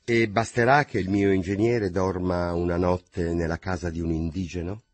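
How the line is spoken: Surprisingly calm voice. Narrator (Italian): dissi con voce così calma che ne fui meravigliato

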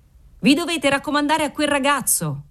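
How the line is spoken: Cheerful shout. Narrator (Italian): urlò allegramente il garzone del cantiniere

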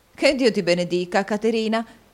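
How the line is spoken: Lively exclamation. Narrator (Italian): esclamò la signora Nickleby con la sua solita vivacità

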